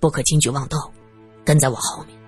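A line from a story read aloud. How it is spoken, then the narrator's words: Low cautioning voice. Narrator (Chinese): 罗隐低声嘱咐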